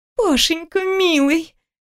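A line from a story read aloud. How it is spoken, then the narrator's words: Girl whimpering. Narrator (Russian): скулит девушка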